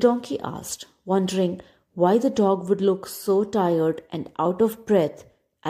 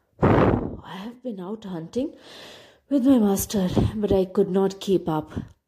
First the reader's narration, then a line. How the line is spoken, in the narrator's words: the dog gasped